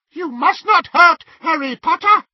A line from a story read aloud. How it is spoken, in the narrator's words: he squeaked